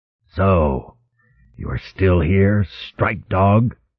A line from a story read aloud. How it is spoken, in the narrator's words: Ungat Trun called up in his savage, guttural growl